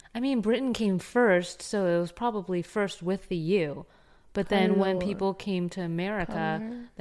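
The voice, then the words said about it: Valley Girl accent. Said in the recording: “I have a Valley Girl accent.”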